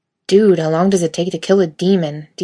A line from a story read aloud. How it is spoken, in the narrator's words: Dean spat out